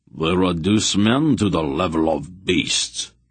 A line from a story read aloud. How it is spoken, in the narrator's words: Mandarallan growled, his eyes burning with a terrible anger